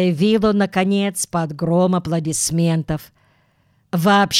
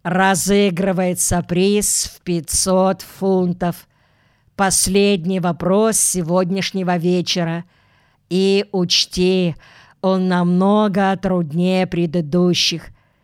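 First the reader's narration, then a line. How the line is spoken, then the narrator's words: Very solemn voice. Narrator (Russian): проговорил Ронни Обыграйт очень торжественным голосом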